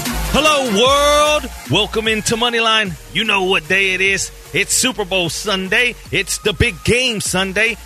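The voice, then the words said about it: Hyped, excited delivery. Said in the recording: “I think you can hear it in my voice how hype I am”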